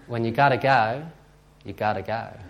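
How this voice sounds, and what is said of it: Put-on accent quoting someone. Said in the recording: “excuse my accent.”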